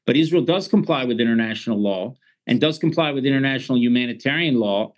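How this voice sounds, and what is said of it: American accent. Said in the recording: “I was born and raised, as you can hear from my accent, in the United States.”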